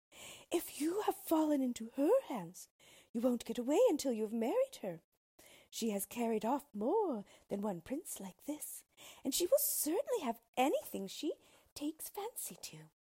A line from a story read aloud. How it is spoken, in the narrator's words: cried the fairy, pretended fairy